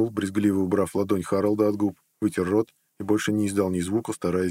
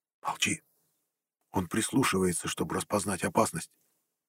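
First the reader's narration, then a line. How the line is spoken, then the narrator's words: Whisper. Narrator (Russian): Харолд шепнув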